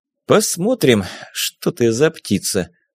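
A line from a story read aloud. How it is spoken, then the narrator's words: Muttered under breath. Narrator (Russian): буркнул себе под нос Арсений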